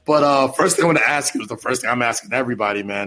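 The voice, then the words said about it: Slightly raspy voice. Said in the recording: “my voice is a little raspy ... I've been yelling and screaming”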